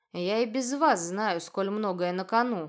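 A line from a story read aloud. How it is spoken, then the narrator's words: Grim interruption. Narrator (Russian): мрачно перебил Адар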